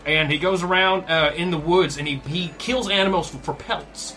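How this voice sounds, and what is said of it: Put-on southern accent. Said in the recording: “I guess he's got a southern accent. ... He sounds like this”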